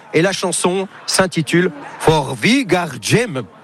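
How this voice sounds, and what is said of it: Exaggerated foreign accent on title. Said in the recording (French): “quel accent!”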